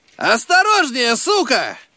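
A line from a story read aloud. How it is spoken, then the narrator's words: Shout. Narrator (Russian): крикнул он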